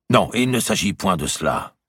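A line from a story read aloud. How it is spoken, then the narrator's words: Brisk. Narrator (French): dit vivement Valois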